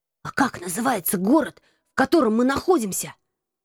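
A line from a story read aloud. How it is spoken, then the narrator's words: Whisper. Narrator (Russian): прошептал Кэт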